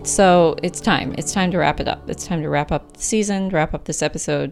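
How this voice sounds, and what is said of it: Breathless, short of breath. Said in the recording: “I'm totally out of breath ... At the end of pregnancy, it's like oh, you can like barely breathe.”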